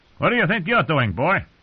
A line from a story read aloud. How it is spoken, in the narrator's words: the townsman snapped